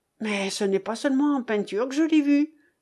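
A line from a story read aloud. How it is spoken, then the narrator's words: Exclaimed. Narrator (French): s'écria Jean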